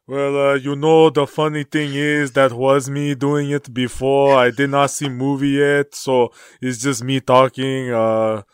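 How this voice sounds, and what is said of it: Joel Embiid impression, Black Panther-style accent. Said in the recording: “Black Panther accent ... let's just go with Joel Embiid”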